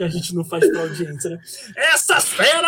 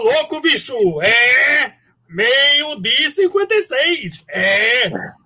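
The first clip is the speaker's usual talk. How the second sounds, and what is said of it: Imitates another person's voice. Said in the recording (Portuguese): “imita aí ... inclusive imita o Faustão”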